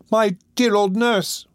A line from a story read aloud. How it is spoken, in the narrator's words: cried Oliver